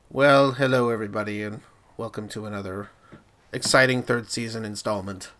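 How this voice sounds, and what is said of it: Congested voice from a cold. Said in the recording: “I have a cold, ... muting my mic quite a bit to cough ... it feels good in the throat.”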